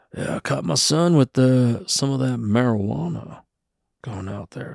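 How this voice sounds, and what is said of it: Old cowboy voice. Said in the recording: “he acts like he's like an old cowboy ... why are you talking like an old person?”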